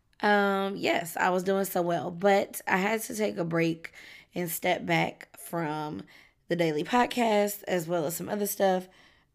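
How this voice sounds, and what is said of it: Strained, congested-sounding voice. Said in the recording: “Excuse my voice. ... My allergies are kicking my ass currently.”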